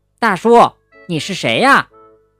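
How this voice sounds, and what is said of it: Loud, booming voice. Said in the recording (Chinese): “用洪亮的声音问了一遍”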